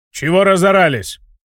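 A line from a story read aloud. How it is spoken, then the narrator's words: Growled. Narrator (Russian): рыкнул вошедший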